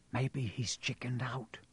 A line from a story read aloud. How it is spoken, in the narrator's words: Ron whispered